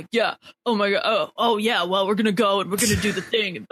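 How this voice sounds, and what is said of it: Impression of a put-on straight-guy voice. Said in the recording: “My favorite Brent impression is when he's trying to do his hetero voice”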